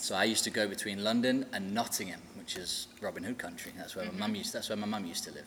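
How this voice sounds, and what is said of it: English accent. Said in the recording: “your accent isn't exactly Tennessee ... Not quite, not quite, no. So I'm from England.”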